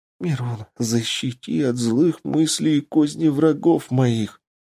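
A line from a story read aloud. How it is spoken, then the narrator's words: Whisper. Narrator (Russian): прошептал Лучезар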